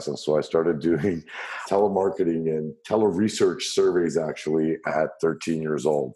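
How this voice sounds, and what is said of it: Deep radio-style voice. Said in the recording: “I got a deep voice, as you could hear on this podcast ... you've got a great radio voice.”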